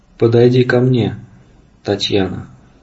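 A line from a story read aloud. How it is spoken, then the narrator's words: Unexpectedly soft. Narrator (Russian): сказал Корман неожиданно мягко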